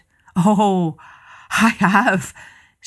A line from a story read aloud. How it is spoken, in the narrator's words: said the wise one breathlessly